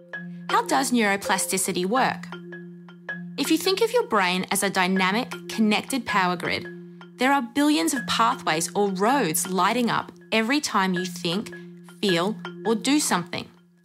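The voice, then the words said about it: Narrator with a distinctive accent. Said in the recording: “with a much cooler accent”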